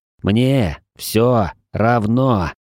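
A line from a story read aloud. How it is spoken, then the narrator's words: Angry growl. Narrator (Russian): прорычал я ... ощутил, как меня охватывает гнев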